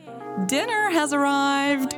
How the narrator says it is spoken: Shannon yelled from the door

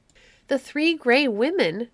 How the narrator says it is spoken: cried, to whom this seemed only a new difficulty in the path of his adventure

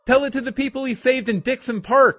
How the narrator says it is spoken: Cindy yelled

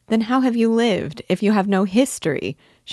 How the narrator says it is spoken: interrupted, laughing

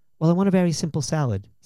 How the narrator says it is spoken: says Clarke

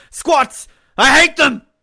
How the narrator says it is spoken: Hayden Christensen yelling at George Lucas, going

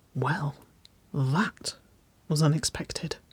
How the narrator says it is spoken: she whispered

